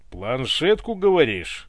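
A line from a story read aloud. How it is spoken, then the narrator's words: Angry bark. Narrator (Russian): рявкнул разгневанно Иван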